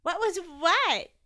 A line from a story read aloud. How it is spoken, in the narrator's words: giggled Tallulah